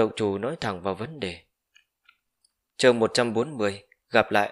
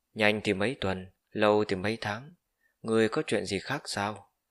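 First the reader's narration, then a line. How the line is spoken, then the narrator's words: Displeased. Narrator (Vietnamese): Tam Động Chủ khẽ nhíu mày, trông có vẻ không vui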